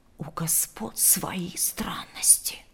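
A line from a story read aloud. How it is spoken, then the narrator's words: Servants whispering. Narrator (Russian): шептались слуги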